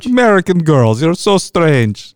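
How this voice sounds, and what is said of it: Put-on Russian accent, character voice. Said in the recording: “your impression of Colossus ... it's a Canadian man doing a Russian accent ... Pretty good. It's pretty good.”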